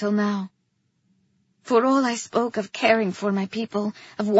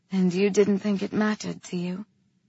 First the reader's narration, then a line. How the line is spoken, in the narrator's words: she said softly